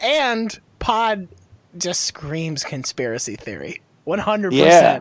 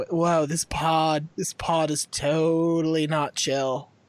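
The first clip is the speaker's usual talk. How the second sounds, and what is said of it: Put-on West Coast accent. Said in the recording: “You can do a West Coast accent.”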